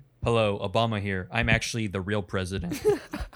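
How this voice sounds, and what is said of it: Imitates another person's voice. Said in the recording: “did a better impression of Obama”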